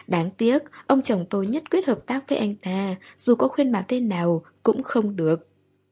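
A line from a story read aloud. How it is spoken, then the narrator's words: Sighing regretfully. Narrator (Vietnamese): Ngô Chân thở dài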